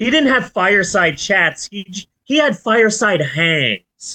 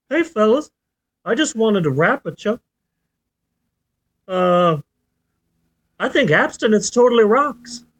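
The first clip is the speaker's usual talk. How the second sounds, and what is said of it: Jimmy Carter impression. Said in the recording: “That's the closest I'm gonna get to a Jimmy Carter, to a Jimmy Carter uh, accent. Not, not, not bad, not bad. It was all right.”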